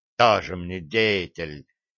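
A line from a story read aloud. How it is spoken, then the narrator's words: Hissed. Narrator (Russian): прошипел я ему в спину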